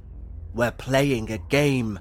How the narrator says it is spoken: growled

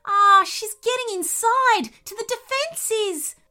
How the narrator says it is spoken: squealed the nervous voice

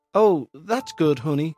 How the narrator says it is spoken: said Rosa

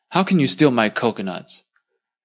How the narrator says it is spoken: The owner yelled at him angrily

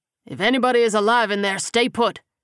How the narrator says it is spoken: he barked loudly

